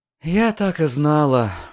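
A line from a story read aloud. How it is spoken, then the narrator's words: Sigh. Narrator (Russian): вздохнула госпожа Врейн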